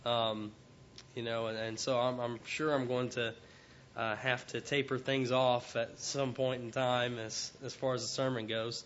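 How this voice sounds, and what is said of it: Weak, not fully recovered voice. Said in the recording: “My voice is still not back 100%, but I could not talk basically from Monday to Wednesday. It just was not very good, so it's still not whole”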